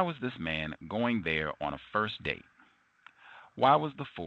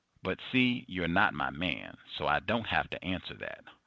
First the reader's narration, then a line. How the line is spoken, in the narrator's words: Audrey said firmly